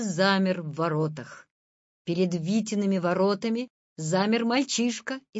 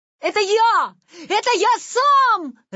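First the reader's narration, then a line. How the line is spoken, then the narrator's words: Joyful shout. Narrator (Russian): радостно закричал Витя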